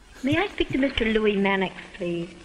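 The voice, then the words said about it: High-pitched, irritating accent. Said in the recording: “speaking with a rather high-pitched, irritating accent”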